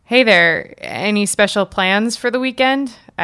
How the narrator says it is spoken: asked

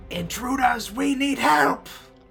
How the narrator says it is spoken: screams out

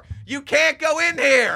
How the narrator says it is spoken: yelled in the door

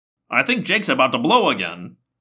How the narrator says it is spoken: Marco exclaimed

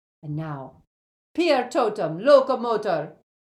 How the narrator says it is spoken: cried Professor McGonagall

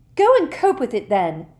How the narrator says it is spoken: she said furiously

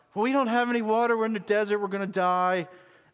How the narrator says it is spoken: They were whining

